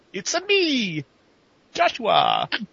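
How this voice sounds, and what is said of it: Mediocre fake Italian accent. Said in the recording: “That was decent ... it wasn't the greatest fake Italian accent I've ever heard”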